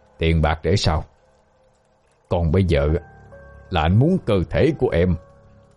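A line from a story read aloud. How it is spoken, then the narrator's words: Lustful soft hiss. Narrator (Vietnamese): Ánh mắt thèm khát khẽ rít lên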